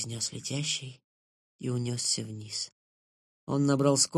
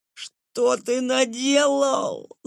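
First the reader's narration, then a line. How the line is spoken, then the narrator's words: Shouting. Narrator (Russian): закричал Лэн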